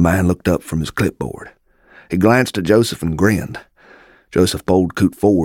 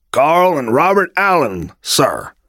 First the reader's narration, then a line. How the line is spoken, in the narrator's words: Joseph said in a loud voice